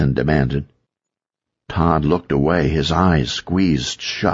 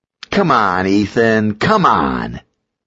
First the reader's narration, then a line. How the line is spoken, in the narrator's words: Drake snarled